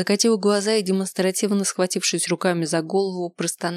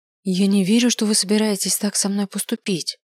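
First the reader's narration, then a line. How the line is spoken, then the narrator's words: Dejected, faltering voice. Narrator (Russian): упавшим голосом произнесла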